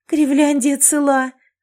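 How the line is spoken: Joyful breathless exhale. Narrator (Russian): радостно выдохнула я

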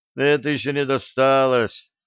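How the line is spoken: Theatrical sigh. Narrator (Russian): театрально вздохнул Максим

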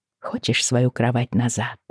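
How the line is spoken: Quiet question. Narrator (Russian): спросила я тихонько

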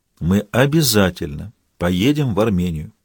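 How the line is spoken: Quiet and solemn. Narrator (Russian): тихо и торжественно повторил Габузов

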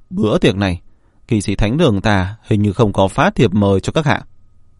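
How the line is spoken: Cold. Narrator (Vietnamese): Cao tầng kỵ sĩ thánh đường tên là Ân Đặc lạnh lùng nói

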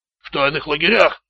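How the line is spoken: Hoarse croak. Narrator (Russian): прохрипел Раптор

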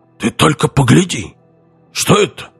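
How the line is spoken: Loud whisper. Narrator (Russian): Он сказал громким шепотом

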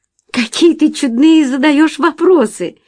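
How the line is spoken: Laughing exclamation. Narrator (Russian): воскликнула она, рассмеявшись

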